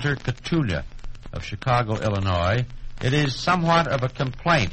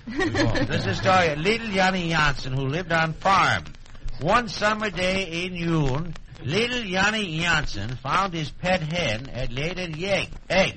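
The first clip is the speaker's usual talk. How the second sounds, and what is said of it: Put-on Swedish accent. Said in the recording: “This is Swedish, by the way. This is my Swedish accent... We could tell”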